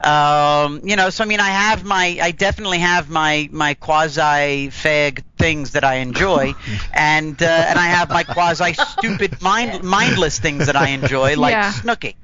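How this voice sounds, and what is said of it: Rough Boston or New York accent. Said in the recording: “I love your accent, by the way. ... Sexy. ... My weakness is men from like Boston or New York. Their accents ... It's a nice accent. ... It's kind of like it's kind of rough and tough.”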